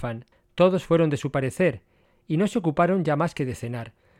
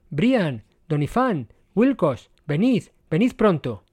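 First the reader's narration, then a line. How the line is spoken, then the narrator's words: Shouting exclamations. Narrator (Spanish): empezó con exclamaciones gritando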